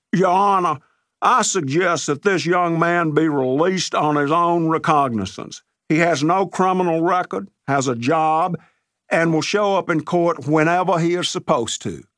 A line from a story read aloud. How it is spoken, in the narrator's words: Nance, eager to say something in front of such a crowd, bellowed